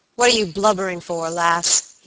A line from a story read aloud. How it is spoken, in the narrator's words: said fiercely